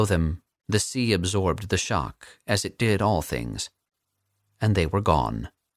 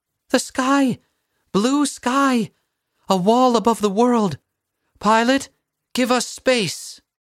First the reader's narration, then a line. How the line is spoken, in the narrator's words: As acceleration crushed them into their seats, Vera screamed